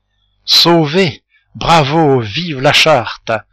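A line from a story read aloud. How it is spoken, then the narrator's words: Bursting with joy. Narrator (French): s'écria le Chourineur dans l'explosion de sa joie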